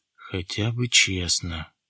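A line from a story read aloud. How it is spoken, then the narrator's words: Mutter. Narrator (Russian): пробормотал Баратов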